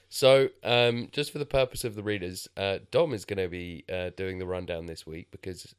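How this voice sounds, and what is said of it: Strained, failing voice. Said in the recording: “my voice isn't holding out very well ... He's got the man flu ... I just don't know how long my voice is going to hold out for”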